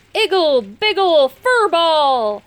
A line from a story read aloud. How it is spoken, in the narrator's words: he cried